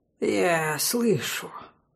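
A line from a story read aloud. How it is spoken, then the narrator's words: Reluctant, suddenly hoarse voice. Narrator (Russian): неохотно отозвался он внезапно охрипшим голосом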